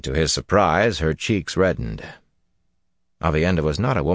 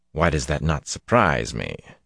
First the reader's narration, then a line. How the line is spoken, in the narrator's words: said dryly